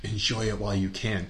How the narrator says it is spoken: the guy comes up to her and whispers in her ear

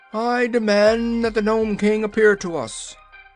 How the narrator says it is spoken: Ozma cried out in a loud voice

